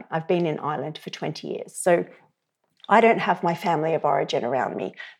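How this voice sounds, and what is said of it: Australian accent. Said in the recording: “you can hear from my accent, I grew up in Australia.”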